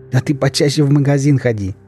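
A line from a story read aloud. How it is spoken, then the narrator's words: Giggling. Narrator (Russian): хихикнул Олежка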